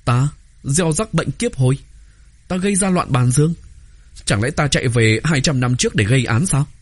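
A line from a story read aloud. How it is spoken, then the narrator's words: Astonished laughing speech. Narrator (Vietnamese): Tô Vân kinh ngạc, bật cười nói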